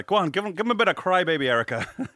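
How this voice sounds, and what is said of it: Put-on rural Irish accent. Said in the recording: “What accent is that? ... my Irish, my mono Irish, like country-ish, I don't know, accent”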